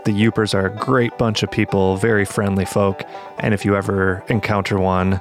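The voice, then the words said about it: Nasally Midwestern American accent. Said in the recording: “my nasally Midwestern accent”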